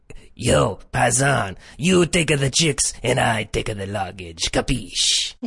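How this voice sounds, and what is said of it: Put-on Italian accent. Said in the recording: “how is he convinced that that's a real Italian accent”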